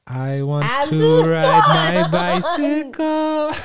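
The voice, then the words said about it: Sings imitating another person's voice. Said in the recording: “I could do a really good Freddie Mercury impression.”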